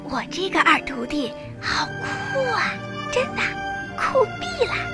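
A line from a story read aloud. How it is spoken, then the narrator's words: Whisper. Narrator (Chinese): 她小声对我说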